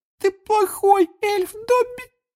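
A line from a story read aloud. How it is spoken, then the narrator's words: Tearful groan. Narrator (Russian): Простонала Винки, и слезы опять покатились из ее глаз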